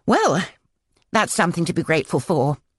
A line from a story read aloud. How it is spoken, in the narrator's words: I said brightly